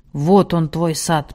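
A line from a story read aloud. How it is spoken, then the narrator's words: Grumbled. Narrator (Russian): пробурчал Салах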